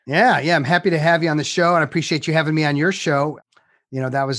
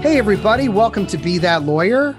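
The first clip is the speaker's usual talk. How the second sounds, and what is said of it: Radio announcer voice. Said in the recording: “This is my announcer voice.”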